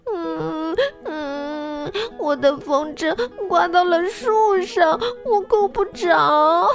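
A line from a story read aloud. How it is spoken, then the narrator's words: Crying boy. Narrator (Chinese): 男孩哭着说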